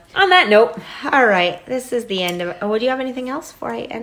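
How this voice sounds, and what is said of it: Hoarse, nearly lost voice. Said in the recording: “sexy voice ... Now I just have no voice. ... It's like lingering.”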